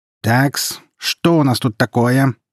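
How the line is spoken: Booming teacher's voice. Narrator (Russian): прогремел учитель истории

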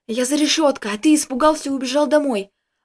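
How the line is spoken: Joyful whisper. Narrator (Russian): радостным голосом прошептал Костик

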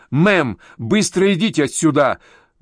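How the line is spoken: Sharp shout. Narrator (Russian): выкрикнула Сакс

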